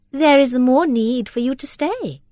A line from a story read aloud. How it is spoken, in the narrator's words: said Rosamond playfully and in her lightest accent